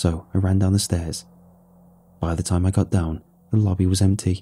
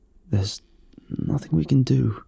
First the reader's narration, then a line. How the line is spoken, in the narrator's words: he croaked